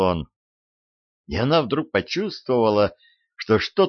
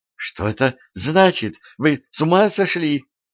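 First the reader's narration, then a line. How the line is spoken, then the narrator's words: Terrified trembling scream. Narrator (Russian): В ужасе закричала она дрожащим голосом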